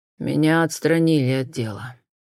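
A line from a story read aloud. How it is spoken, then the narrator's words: Breathed out. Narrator (Russian): выдохнул Джон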